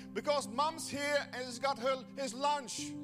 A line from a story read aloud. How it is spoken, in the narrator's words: The worker yelled back